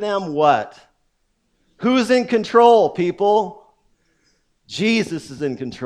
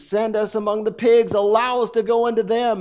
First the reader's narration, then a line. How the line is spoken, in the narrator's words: The demons begged Jesus